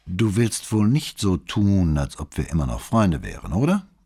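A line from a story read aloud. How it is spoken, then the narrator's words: Plain question. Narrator (German): fragte Peroli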